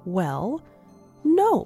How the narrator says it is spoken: said Pat, his voice wobbling a bit

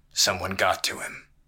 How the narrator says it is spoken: Haytham muttered

